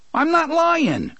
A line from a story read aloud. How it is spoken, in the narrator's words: Fat Johnny cried